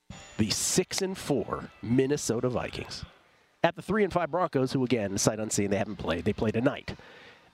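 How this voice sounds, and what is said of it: Smooth late-night DJ voice. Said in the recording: “you have a smooth nighttime DJ voice ... Such a great reprieve from the blaring commercial breaks”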